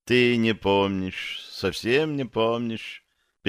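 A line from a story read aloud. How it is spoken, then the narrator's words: Sad. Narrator (Russian): печально сказала она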